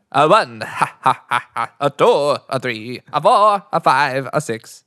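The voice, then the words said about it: Attempted Count Von Count impression. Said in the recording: “you're the only person who can't do a Count Von Count impression”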